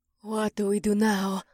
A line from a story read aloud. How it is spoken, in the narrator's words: Mira hissed